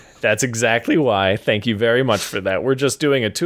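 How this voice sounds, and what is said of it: Usual voice. Nothing is said of it.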